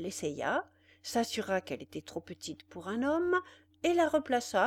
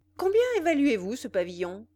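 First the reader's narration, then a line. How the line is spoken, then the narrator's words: Curt and dry. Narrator (French): lui dit-il d'un ton brusque et sec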